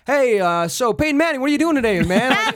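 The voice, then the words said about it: Put-on American accent. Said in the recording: “that is a wicked good American accent you have. It sounds a little weird, but it's pretty good.”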